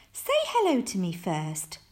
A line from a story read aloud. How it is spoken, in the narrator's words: laughed his mum